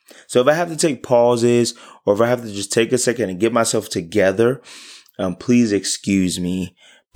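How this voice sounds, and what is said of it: Voice partly gone, strained. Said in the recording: “my voice is like halfway gone”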